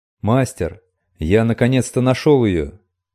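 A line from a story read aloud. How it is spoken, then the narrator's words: Shouting. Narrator (Russian): закричал Эльгион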